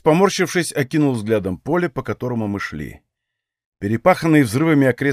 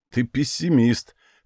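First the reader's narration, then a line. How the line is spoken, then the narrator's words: Smirking grunt. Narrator (Russian): хмыкнул легион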